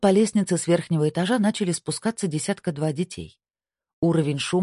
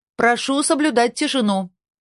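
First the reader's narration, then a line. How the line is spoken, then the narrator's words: Shout. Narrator (Russian): крикнула сотрудница службы безопасности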